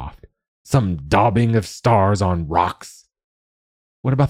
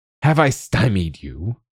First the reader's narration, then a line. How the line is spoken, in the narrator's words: He sneered